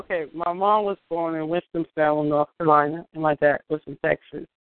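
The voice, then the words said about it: Brooklyn New York accent. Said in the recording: “I was still long enough to not lose my accent. I try to hide it, but ... it comes out sometimes.”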